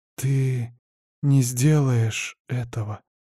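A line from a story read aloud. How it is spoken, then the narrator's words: Disbelieving whisper. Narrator (Russian): с недоверием прошептала девушка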